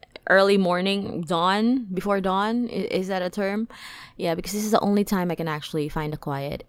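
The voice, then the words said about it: Slightly rough, hoarse voice. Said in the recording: “my voice is starting to sort of be a little rougher because it's actually very early in the morning”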